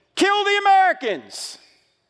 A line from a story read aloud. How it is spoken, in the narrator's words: someone on the loudspeaker in the town mosque yelling